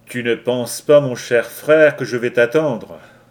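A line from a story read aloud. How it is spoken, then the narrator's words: Sneering laugh. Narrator (French): ricana Loularsen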